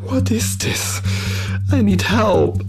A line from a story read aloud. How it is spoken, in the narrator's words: Larry pleaded one last time before he lost any energy to argue